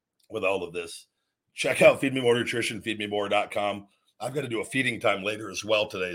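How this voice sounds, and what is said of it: Strained, failing voice. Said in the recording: “I've got to just go cough for like 10 minutes straight. ... I'm saving my voice. It's like my voice is fighting to come back, but also go away forever. ... I've got to get my voice on track”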